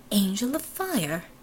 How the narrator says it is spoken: Fata breathed

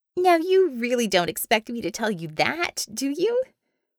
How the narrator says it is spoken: Bella asked, with a hint of throaty chuckle

